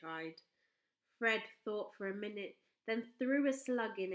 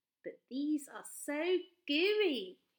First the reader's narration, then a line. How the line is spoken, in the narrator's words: he cried